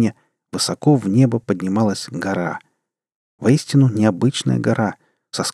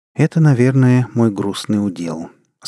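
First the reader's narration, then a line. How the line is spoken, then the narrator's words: Gentle. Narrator (Russian): сказал человек мягко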